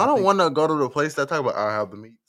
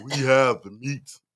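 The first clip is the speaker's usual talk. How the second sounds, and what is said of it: Deep-voiced ad announcer impression. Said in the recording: “With a man with a deep voice.”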